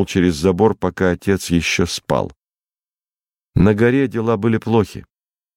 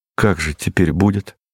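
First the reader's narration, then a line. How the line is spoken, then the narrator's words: Sad question. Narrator (Russian): спросил грустно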